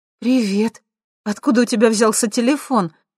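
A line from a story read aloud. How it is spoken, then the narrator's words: Happy question. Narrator (Russian): радостно спросила Лера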